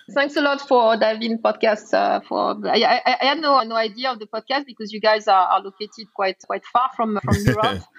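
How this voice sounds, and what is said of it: Strong French accent. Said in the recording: “my French accent. I know it's really, really bad”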